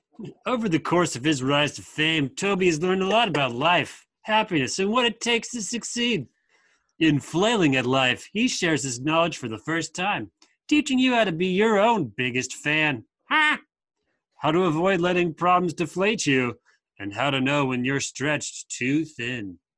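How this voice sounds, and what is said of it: Laid-back surfer dude voice. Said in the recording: “surfer voice? Wow. I want to hear your best surfer voice”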